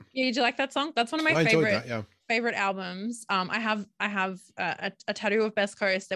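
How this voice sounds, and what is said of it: Australian accent. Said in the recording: “when I listen back to myself, I'm like, oh my god, I sound so Australian”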